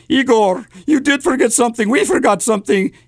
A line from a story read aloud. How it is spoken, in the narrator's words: the doctor choked out